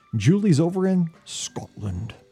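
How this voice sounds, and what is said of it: Poor put-on Scottish accent. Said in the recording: “a guy from Missouri trying to give a Scottish accent is terrible”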